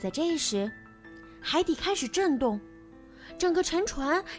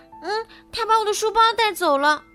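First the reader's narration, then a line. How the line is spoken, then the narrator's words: Loud shout. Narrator (Chinese): 多罗西大喊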